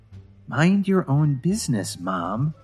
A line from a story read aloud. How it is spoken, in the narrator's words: Lily said with a sigh